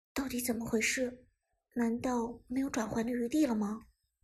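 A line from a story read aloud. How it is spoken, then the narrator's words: Quiet question. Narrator (Chinese): 小声问道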